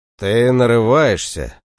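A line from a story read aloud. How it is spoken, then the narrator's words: Through clenched teeth. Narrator (Russian): процедил Осинский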